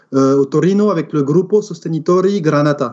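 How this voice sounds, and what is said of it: Put-on accent on foreign words. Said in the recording (French): “Quel accent magnifique.”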